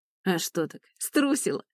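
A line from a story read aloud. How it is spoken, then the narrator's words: Nasty laughing. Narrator (Russian): гаденько засмеялся этот мерзавец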